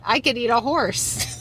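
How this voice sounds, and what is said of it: Put-on Australian accent. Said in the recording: “You sound so Australian.”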